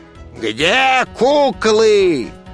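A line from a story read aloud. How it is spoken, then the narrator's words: Crowd roaring like siren. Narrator (Russian): людская масса взревела, как пожарная машина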